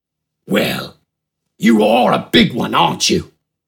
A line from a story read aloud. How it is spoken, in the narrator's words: Smidgen rasped through a crooked grin